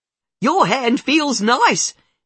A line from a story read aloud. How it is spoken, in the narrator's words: she yells back